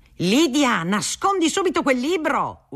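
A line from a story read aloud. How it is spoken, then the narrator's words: Yelling. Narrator (Italian): urlava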